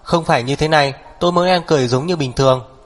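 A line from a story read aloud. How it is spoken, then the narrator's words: Loud yell. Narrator (Vietnamese): Hắc Viêm Triệt lớn tiếng gào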